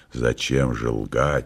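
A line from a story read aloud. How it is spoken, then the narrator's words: Quiet question. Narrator (Russian): спросил тихо Пилат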